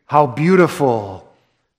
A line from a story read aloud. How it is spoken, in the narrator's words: So exclaim it